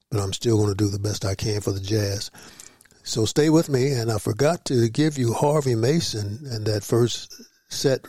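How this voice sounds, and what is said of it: Hoarse voice. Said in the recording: “my voice is not bothering you. As you can tell, I'm a little hoarse”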